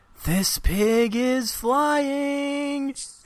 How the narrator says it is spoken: screams

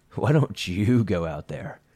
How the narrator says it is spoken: Molly snapped back

